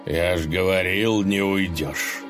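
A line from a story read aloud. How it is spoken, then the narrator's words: Satisfied snort. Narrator (Russian): Довольно хмыкнул Корявый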